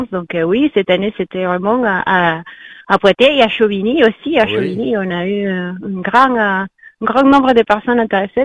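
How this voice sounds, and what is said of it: Peruvian Spanish accent in French. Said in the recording (French): “l'accent que vous avez, c'est un accent péruvien, je crois. ... Un accent hispanique. ... Du Pérou.”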